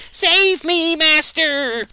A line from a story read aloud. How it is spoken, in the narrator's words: Baxter jumping to save himself, yelling